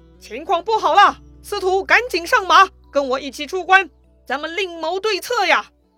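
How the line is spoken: Calling out. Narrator (Chinese): 叫王允

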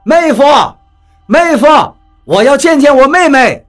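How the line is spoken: Shouting. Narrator (Chinese): 张广川的喊叫声响了起来

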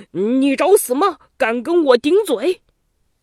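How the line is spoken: Furious loud shouting. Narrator (Chinese): 周宣王气得什么似的，大声嚷道

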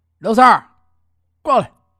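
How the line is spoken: Calling out. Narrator (Chinese): 这五爷啊叫了一下

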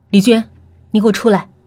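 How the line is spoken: Cold command. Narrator (Chinese): 冷冷的命令道

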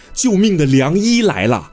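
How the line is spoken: Shouted call. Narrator (Chinese): 喊出了这一句

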